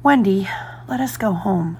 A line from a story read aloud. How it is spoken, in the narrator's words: whispered John